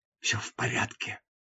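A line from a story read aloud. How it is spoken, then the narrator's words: Whispered. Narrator (Russian): прошептала она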